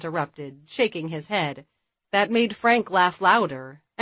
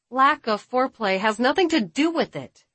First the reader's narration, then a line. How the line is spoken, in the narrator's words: Jessica blurted